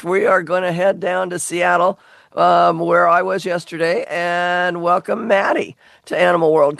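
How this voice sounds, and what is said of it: Worn-out, strained voice. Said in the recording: “this is how I lost my voice. I wore out my voice yesterday ... my voice is not the greatest today because I kind of wore it out yesterday”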